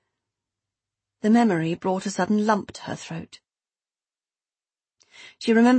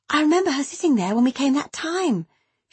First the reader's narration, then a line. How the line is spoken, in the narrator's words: she said breathlessly